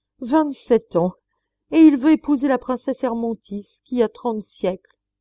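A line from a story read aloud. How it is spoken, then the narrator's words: Crowd exclaiming together. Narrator (French): s'écrièrent à la fois tous les trônes et tous les cercles des nations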